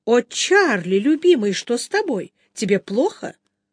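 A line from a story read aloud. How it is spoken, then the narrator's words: Exclaimed. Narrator (Russian): Она воскликнула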